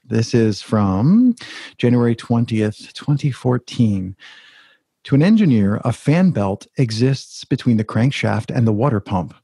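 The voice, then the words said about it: Smooth NPR-style podcast reading voice. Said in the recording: “In your podcast voice. ... I didn't mean to have a podcast voice, but apparently there's NPR”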